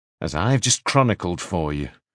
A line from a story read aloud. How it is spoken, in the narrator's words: he said coldly